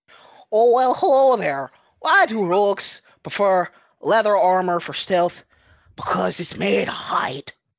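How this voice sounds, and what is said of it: Attempted thick Canadian accent, drifting Scottish. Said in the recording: “very thick Canadian accent ... It started there, but you kind of went a little Scottish ... then that just went Irish”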